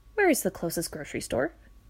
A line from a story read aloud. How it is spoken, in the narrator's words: asked